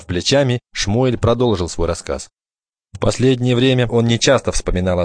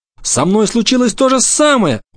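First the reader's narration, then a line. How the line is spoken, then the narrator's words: Glad exclamation. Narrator (Russian): воскликнул Бруно, радуясь тому, что он не единственный мальчик на свете, которого вынудили уехать из дома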